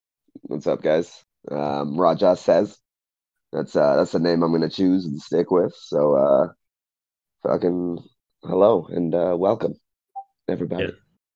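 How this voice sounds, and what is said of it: Raspy voice. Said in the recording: “I got a little bit of a cold right now, too ... The raspiness. Oh, the raspiness.”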